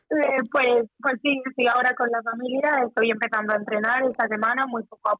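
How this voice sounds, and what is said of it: Noticeable regional Spanish accent. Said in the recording (Spanish): “se te nota más acento”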